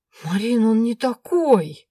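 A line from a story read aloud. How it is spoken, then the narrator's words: Convinced drawl. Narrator (Russian): Убежденно протянула Аленка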